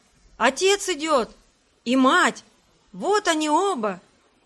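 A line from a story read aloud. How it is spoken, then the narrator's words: Children shouting. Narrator (Russian): Это кричали Китти и Сим, увидавшие издали возвращавшихся Мартена и Мартину Маккарти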